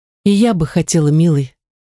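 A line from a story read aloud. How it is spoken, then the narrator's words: Sighing. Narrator (Russian): вздохнула Тези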